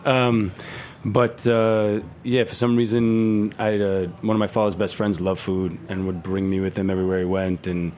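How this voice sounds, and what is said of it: Brooklyn New York accent. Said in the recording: “I grew up in Sheepshead Bay, Brooklyn ... sorry with the accent, guys. I'll try and speak slower.”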